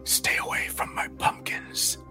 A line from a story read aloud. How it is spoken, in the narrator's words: hissed